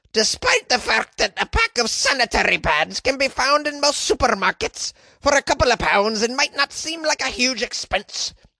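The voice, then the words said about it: Attempted Scottish female voice. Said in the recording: “I don't think I can do a Scottish accent that's also in a female voice. Let's try.”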